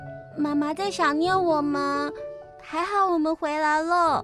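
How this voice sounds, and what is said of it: Usual voice. Nothing is said of it.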